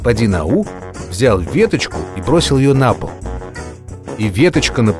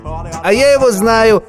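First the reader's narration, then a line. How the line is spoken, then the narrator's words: Boy shouting. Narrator (Russian): закричал один мальчик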